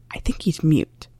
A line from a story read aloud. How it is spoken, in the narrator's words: Sirius said to Remus in a pretend whisper